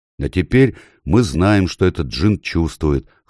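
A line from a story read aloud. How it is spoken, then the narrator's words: Chuckle. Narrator (Russian): хохотнул Эдмунд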